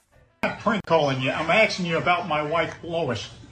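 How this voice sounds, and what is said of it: Peter Griffin impression. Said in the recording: “doing a Peter Griffin impersonation via the prank call. This is a great Peter Griffin impersonation.”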